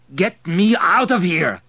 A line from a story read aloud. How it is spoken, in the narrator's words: shouted Abel above the crowd